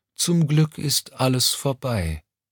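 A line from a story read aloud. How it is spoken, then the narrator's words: Tired reply. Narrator (German): entgegnete Mommsen müde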